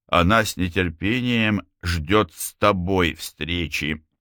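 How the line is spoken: Plain. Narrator (Russian): сказал Эрил Фейн

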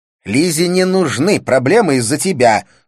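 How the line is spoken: Said angrily. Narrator (Russian): сказала она сердито

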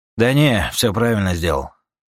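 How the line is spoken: Snorting chuckle. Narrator (Russian): хмыкнул Юджин

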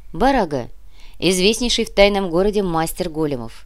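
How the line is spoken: Snort. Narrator (Russian): хмыкнул

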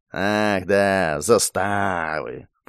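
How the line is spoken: Drawn-out drawl. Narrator (Russian): протянул замминистра

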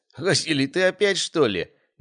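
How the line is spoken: Choking with laughter. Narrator (Russian): давился от хохота Александр

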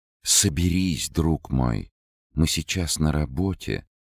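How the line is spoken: Tender woman. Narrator (Russian): ласково сказала дама

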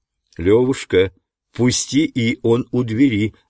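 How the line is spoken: Plain. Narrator (Russian): сказал мне Ананда

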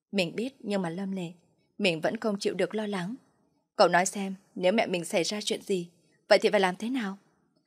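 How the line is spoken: Girl, sad, choked voice. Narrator (Vietnamese): An Nhiên vẻ mặt có chút buồn khổ, thanh âm nghẹn ngào nói

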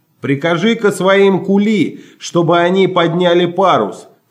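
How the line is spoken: Shouting. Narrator (Russian): крикнул мне наконец Чарли

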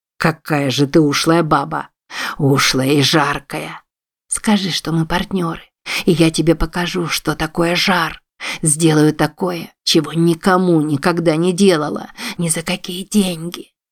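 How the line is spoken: Whispered right in ear. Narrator (Russian): Шепнула она ему в самое ухо

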